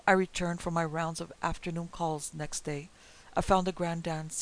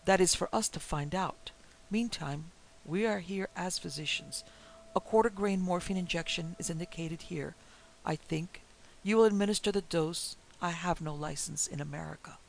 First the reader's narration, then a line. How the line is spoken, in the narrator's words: he replied gravely